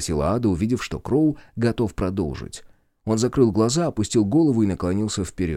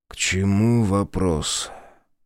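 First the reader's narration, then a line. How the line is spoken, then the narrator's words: Muffled hollow voice. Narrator (Russian): Его голос прозвучал глухо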